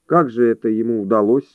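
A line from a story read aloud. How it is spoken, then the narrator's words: Indifferent tone. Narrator (Russian): спросил он безразличным тоном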